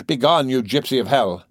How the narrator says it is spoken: cried the terrified mother

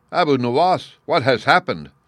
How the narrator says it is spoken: cried the sultan

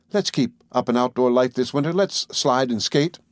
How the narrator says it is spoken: Carol begged

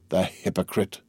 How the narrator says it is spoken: murmured Danglars

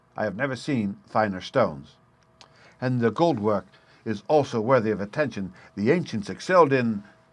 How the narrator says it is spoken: said he curtly

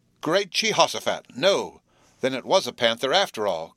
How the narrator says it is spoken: cried Jerry

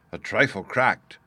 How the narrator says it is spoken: he muttered to himself

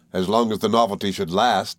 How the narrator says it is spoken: said I, laughing

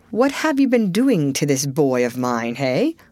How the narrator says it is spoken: sharply put

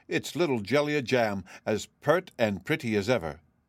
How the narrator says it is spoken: he exclaimed

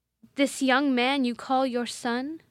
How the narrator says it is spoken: said the Baroness

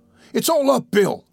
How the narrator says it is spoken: cried Toby

